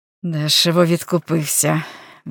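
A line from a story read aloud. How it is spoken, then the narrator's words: Offhand mutter. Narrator (Ukrainian): мимохідь пробурмотів Генрі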